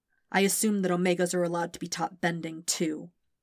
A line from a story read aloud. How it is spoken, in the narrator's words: he said bitterly